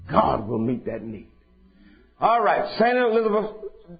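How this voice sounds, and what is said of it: Usual voice. Nothing is said of it.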